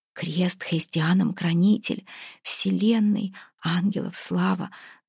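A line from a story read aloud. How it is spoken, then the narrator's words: Desperate halting mutter. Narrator (Russian): забормотала, отчаянно силясь вспомнить правильные слова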